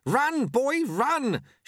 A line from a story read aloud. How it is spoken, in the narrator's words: shouted Lutze